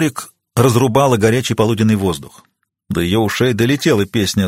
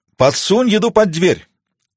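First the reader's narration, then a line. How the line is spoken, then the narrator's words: Old woman shouting. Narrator (Russian): прокричала бабуля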